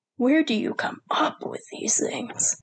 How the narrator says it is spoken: Sergei sighed

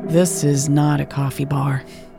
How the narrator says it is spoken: they replied dryly

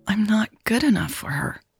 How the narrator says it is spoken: a tiny but persistent voice in Natalie's head whispered

